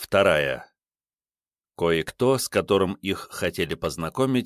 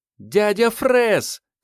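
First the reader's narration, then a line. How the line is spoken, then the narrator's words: Boy's joyful shout. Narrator (Russian): крикнул мальчишка радостно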